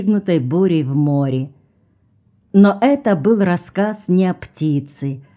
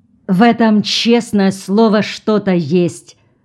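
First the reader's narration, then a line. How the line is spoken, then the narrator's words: Loud speech. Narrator (Russian): громко говорил он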